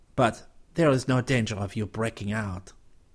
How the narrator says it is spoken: Chuckling, Mouton added

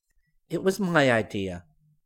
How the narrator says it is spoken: the voice answered

